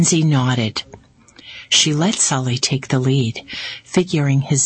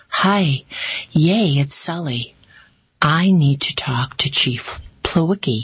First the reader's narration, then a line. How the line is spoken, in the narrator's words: he said